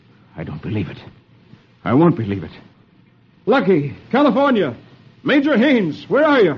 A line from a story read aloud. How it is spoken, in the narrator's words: Hoppy exclaims